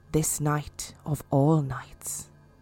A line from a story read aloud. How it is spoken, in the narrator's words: whispered the old woman